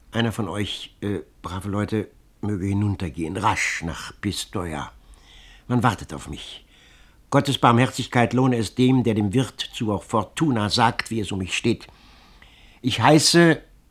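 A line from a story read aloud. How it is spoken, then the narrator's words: Faltering pleading voice. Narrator (German): bat er mit stockender Stimme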